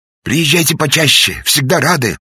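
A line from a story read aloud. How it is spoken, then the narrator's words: Shouting. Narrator (Russian): успел еще крикнуть исправник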